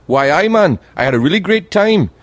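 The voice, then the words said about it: Attempted Geordie accent. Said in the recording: “I can't do the accent. They've got the best accent ever, the people from Newcastle. Geordie ... They speak like that. They're just on the border of Scotland. I can't do the accent”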